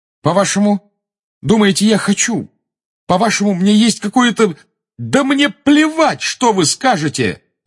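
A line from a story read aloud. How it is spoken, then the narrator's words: Shouting. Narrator (Russian): закричал Гарри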